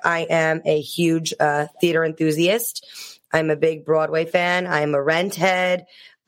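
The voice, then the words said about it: New York accent. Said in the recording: “I knew you were from New York just from your accent. I love your accent. It's so good.”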